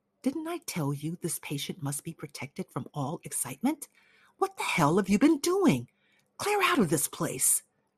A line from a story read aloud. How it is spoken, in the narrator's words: whispered